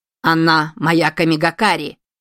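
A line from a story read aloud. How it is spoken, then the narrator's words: Barked in uncontrolled rage. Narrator (Russian): рявкнула Аматерасу в бесконтрольном гневе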